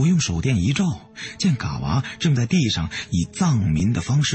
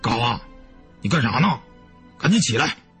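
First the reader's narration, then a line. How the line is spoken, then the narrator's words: Shouting. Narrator (Chinese): 大个子对嘎娃喊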